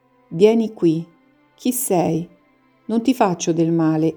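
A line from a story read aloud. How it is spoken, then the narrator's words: Gentle, sweet voice. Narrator (Italian): lo dice così dolcemente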